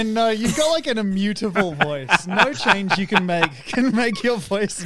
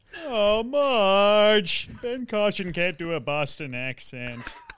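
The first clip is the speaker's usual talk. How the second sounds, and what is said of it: Homer Simpson impression. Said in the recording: “I can do Homer. ... Homer? All right, do Homer for us.”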